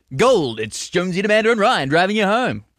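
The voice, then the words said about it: Impression of radio host Brendan Jones. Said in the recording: “What are you doing this voice for? ... that's what you sound like. Brendan Jones.”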